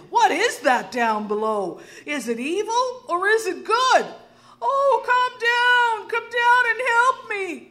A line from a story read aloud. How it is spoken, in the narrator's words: cried the old woman